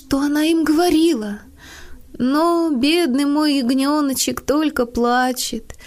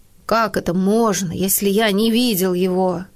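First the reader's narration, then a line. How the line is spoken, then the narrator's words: Irritated man. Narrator (Russian): заметил мужчина раздраженно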